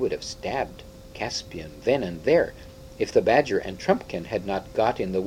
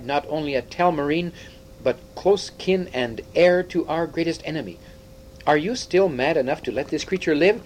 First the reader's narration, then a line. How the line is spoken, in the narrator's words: he cried